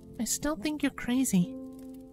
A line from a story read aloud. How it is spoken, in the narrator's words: Twilight whispered